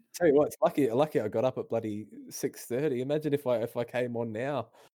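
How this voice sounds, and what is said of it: Strained, fading voice. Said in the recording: “I'm losing my voice now.”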